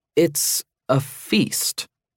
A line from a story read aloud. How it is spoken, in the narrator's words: he said slowly